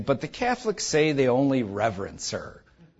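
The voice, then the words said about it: Smarmy, mocking sarcastic voice. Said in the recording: “I say that in my smarly voice. I'm good at a smarly voice, and so I say it in a smarly voice”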